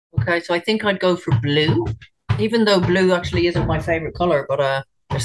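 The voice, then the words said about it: Mixed Irish accent. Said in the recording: “I love your Irish accent ... in Ireland, I would be classed as a bit of a mongrel accent. I'm not a pure Irish ... this isn't a pure Irish accent. There's bits of it in there.”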